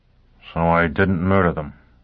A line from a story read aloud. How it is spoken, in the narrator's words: Foyle grunted